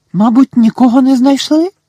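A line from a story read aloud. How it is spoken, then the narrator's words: Worried exclamation. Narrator (Ukrainian): стурбовано вигукнула Герміона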